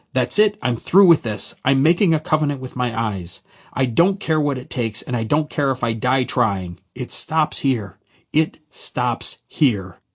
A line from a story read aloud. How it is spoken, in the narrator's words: through clenched teeth I yelled out